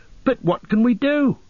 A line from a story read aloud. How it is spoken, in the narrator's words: cried Pippin miserably